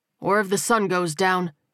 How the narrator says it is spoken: Tyrell said firmly

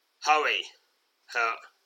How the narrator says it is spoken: growls the goblin mage

